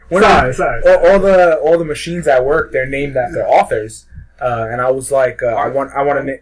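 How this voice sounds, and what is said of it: Brooklyn accent. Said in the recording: “I have a Brooklyn accent ... You don't know how to enunciate.”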